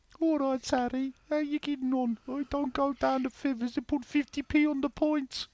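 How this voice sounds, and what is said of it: Put-on Birmingham accent. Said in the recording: “That Brummy accent's got to be the worst”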